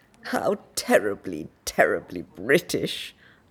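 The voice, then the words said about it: Exaggerated posh upper-class English accent. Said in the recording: “in a cod upper crust English accent”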